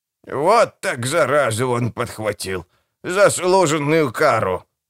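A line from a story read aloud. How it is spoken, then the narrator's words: Sarcastic hiss. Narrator (Russian): язвительно процедила она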